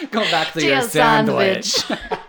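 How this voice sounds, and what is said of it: Put-on Russian accent. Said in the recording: “I don't know why I said sandwich in a Russian accent.”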